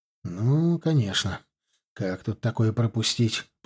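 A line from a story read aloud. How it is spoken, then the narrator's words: Mutter. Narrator (Russian): пробормотал Тимоха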